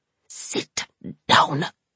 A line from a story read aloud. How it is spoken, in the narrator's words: hissed Alsana